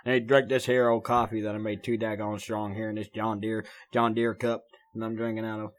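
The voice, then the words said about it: Twangy country accent. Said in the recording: “I don't even know why I sound like that ... Need to get the twang out of me. ... I need to get the twang out of my voice”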